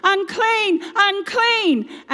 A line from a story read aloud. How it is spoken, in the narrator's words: shouting